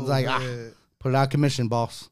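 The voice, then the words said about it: Imitation of a movie character's voice. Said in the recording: “that a John Coffey impression?”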